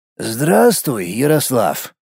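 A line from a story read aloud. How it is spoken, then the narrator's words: Slightly hoarse voice. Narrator (Russian): голос говорящего был с небольшой хрипотцой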